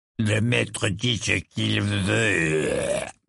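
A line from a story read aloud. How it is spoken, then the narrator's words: Furious grumble. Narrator (French): grommela-t-il avec fureur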